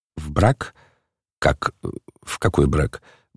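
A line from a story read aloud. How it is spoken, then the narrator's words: Stunned mumbling. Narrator (Russian): бормотал ошеломленный Гаврила Ардалионович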